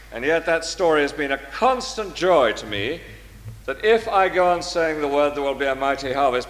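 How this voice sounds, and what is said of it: English accent. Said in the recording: “an English accent ... My English accent?”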